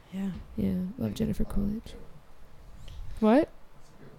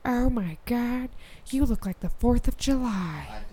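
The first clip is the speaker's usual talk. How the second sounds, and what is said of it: Jennifer Coolidge impression. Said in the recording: “Jennifer Coolidge ... Do the voice.”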